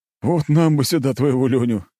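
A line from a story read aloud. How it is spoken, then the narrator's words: Officer chuckling. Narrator (Russian): хохотнул один из офицеров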